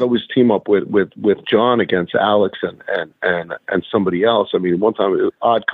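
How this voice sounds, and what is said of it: Usual voice. Nothing is said of it.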